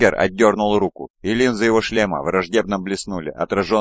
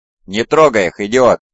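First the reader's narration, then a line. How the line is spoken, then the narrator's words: Barked. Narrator (Russian): рявкнул Фальк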